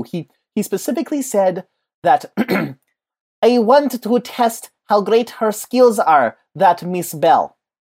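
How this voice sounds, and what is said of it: Character voice with put-on accent. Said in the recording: “I don't know how good my accent was... impressive character work you just did there. Playing a character, doing an impression of another character”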